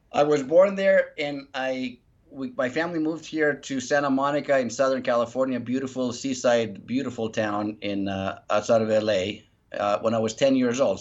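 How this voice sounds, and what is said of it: Slight foreign accent. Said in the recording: “I hear a little tiny bit of an accent.”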